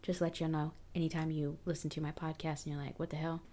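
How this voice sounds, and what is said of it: Lowered deeper quieter speaking voice. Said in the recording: “my voice changes octaves from like my happy-go-lucky voice... it changes to this deep voice... that's why my voice is at this level”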